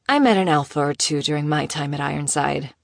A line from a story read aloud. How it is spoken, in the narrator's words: she said calmly